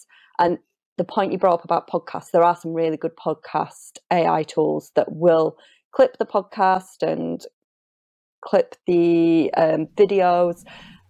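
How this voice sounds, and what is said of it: Yorkshire accent. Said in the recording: “my Yorkshire accent”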